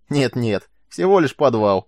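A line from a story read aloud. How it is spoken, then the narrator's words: Cheerful reassurance. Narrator (Russian): радостно заверил его сержант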